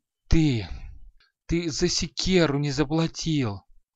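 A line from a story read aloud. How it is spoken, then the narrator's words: Strained killer's voice. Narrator (Russian): выдавил убийца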